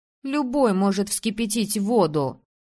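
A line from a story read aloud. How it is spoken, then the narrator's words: Irritated sigh. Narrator (Russian): Анна Куя раздраженно вздохнула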